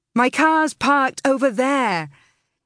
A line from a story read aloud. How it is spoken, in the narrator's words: shouted